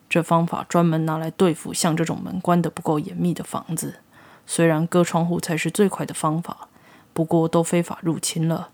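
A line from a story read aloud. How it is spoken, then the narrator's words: Flat, calm tone. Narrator (Chinese): 他淡淡说道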